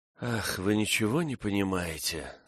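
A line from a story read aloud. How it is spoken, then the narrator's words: Hopeless tone. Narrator (Russian): сказала она безнадежным тоном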